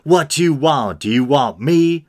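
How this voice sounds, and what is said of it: Put-on Southern accent. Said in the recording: “Now God's got a southern accent too”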